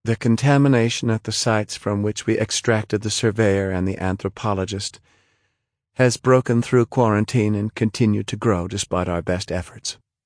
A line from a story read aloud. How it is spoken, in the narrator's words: said in a flat voice